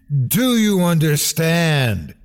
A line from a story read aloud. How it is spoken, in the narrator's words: screamed in his mind